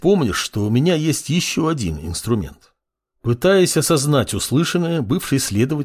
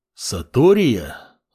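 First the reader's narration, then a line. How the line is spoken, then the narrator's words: Thoughtful. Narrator (Russian): Задумчиво произнес Амур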